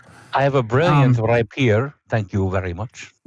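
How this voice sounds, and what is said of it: Speaks in a put-on accent. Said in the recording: “that's a good accent”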